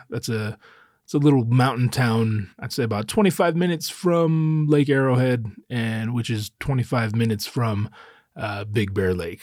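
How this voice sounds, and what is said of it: Slightly out of breath. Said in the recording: “I'm a little out of breath because I'm in the mountains at very high elevation.”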